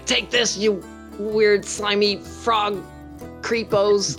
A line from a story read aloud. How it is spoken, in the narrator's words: I'll just shout